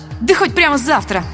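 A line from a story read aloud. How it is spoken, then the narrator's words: Snapping back. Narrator (Russian): огрызнулась я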